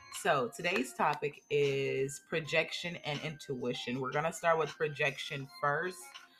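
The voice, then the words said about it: Strained, recovering voice. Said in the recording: “please forgive my voice. It's kind of out of there. I'm barely just getting it back.”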